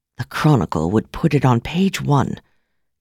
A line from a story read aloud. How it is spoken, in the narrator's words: Kirsten said in a solemn tone